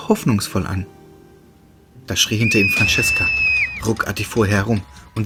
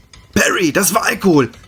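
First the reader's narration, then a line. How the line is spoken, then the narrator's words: Shouted. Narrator (German): schrie Roderick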